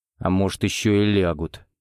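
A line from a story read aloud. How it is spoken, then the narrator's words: Grumbling. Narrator (Russian): буркнул Карась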